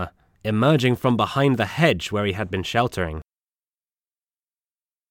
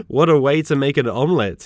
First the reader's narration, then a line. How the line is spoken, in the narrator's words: he laughed